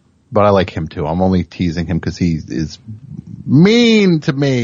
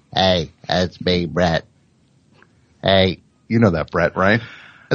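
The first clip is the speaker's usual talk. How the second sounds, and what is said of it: Pretty good impression of Brett. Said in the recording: “That's a pretty good impression of him.”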